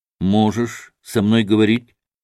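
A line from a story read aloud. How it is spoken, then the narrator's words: Plain. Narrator (Russian): спросил Иван Федорович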